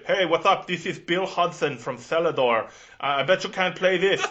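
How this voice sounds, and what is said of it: Impression of Bill Hudson's weird accent. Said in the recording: “he had this like weird accent”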